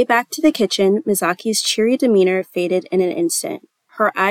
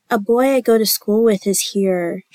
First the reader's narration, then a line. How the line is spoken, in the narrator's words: moaned